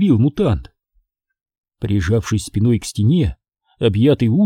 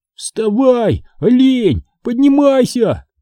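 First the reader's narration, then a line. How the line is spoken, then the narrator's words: Shrieked. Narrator (Russian): завизжал я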